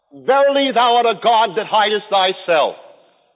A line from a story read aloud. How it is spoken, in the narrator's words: He cried out